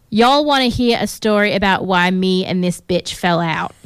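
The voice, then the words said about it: Put-on accent reading tweet. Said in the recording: “That was such a good accent. ... No, I didn't even try properly.”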